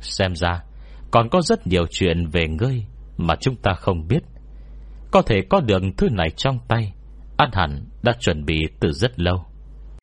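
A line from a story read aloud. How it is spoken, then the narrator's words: Smiling. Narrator (Vietnamese): vị lâu chủ bị phong ấn thuật pháp mới mỉm cười nói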